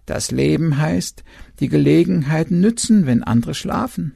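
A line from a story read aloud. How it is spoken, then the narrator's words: Owl croaking. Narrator (German): der Uhu krächzte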